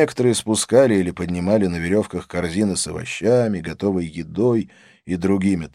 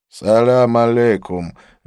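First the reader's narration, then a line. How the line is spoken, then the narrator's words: Lazy greeting. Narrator (Russian): лениво промолвил он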